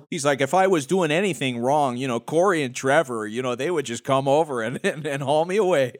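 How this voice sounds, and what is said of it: Imitates another person's accent. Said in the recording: “we are not making fun of your accent. It is glorious.”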